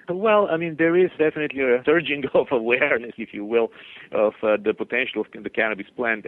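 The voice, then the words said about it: Slight accent. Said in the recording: “you have a little accent.”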